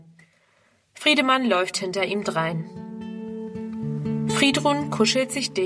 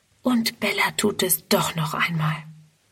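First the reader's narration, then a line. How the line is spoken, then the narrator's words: Whispered to herself. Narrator (German): Friedrun flüstert vor sich hin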